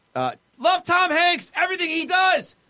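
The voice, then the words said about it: Screaming, shouted excitedly. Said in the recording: “That's capitals, by the way, Jay. That's why I'm screaming.”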